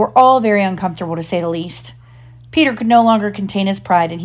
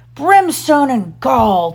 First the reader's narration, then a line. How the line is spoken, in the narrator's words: thundered Hook